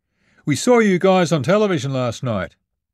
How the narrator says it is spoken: the driver hollered

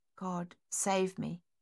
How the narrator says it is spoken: she whispered

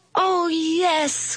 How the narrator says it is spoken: cried the kids

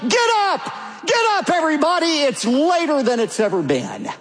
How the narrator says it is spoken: the little boy in the house awakened, and he ran through the house yelling

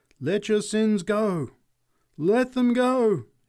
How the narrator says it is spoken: she cried

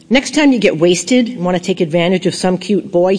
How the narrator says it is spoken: he said

